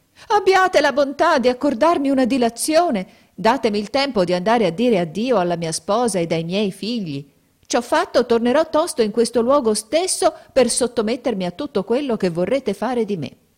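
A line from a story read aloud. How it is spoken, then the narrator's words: Crying out. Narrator (Italian): il mercante gettò un grido e gli disse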